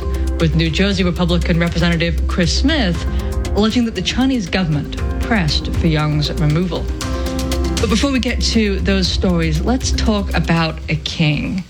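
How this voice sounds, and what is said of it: British accent. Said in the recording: “with the British accent”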